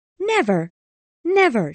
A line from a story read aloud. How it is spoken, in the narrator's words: she cried